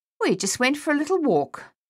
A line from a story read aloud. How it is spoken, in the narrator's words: Lily said a little too brightly